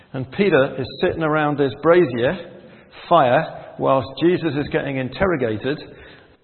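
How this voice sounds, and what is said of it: Geordie accent. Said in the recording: “I'm a Geordie, by the way. So I'm bilingual. I speak Geordie and English.”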